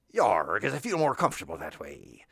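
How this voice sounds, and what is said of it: West Country pirate voice. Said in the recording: “West Country accent, ... more of a pirate voice”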